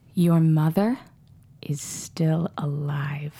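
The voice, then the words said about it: Menacing character voice. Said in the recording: “Can you say it in that Ivy Brown voice that's just so menacing?”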